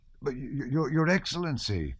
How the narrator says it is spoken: stammered Alpátych, and broke into sobs

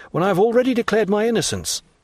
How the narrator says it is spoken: cried I

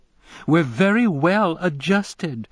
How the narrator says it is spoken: she insisted, laughing

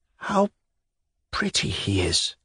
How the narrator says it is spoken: she whispered weakly with a smile

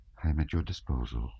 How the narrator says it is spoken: she murmured

